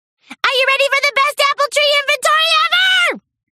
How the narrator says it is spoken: Pinkie squealed

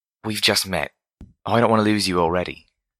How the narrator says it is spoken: Homage whispered

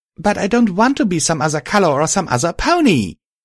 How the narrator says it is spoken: I exclaimed angrily

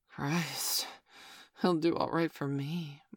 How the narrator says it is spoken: Mum breathed

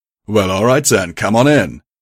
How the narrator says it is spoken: he shouted

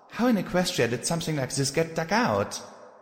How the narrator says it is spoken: Vic Macintosh chuckled

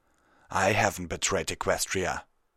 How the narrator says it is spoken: Stoneshot snarled

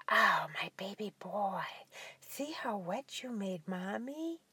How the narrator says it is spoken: letting out a soft moan, and whispered

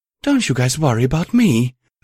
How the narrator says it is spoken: Lilith piped up, grinning

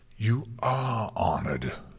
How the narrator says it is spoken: Luna growled

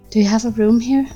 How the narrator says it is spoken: I asked breathlessly, all fear gone and replaced with pure desire

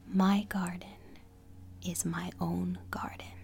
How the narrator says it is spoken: said the giant

